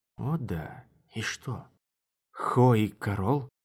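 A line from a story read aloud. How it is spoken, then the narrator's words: Whisper. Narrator (Russian): Мара шепнула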